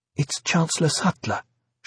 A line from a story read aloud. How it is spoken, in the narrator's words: she said nervously